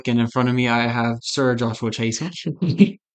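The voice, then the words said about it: Crappy put-on British accent. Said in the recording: “That was my crappy British accent”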